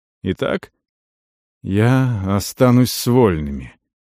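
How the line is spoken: Hoarse reply. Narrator (Russian): хрипло ответил тот

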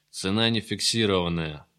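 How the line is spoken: Gloomy reply. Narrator (Russian): отозвался Гайдук уныло

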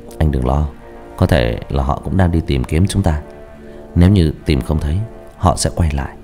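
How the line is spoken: Gentle, comforting. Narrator (Vietnamese): Bà ... khẽ an ủi

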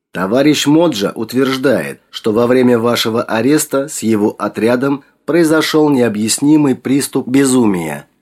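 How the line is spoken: Plain. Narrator (Russian): сказал Че

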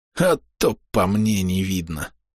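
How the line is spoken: Quiet wheeze, weak smirk. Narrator (Russian): Слабо усмехнувшись, тихо просипел Хедвиг

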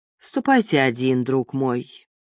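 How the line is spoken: Gloomy reply. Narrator (Russian): мрачно ответил Морипа

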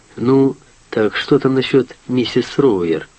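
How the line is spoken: Plain. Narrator (Russian): спросил он

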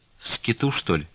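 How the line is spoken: Broken voice. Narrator (Russian): спросила Аксинья Захаровна разбитым голосом

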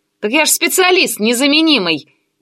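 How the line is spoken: Shouted from behind door. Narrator (Russian): уже из-за двери прокричал Миша

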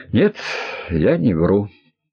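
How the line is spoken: Flat, colorless voice. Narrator (Russian): бесцветным голосом ответил Виктор

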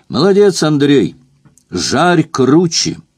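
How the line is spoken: Shout. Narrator (Russian): крикнул я

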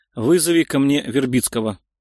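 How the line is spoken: Calm request. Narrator (Russian): спокойным тоном попросил Леонтьев

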